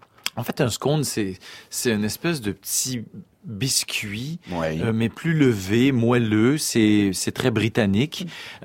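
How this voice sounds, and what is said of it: Québécois French accent. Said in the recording (French): “l'accent québécois ... J'adore votre accent”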